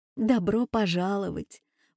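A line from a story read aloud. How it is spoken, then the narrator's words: Smiling through tears. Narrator (Russian): улыбнулась сквозь слезы Ася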